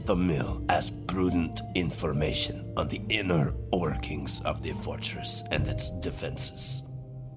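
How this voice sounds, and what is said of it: Very thick put-on accent. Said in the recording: “you just have a very thick accent”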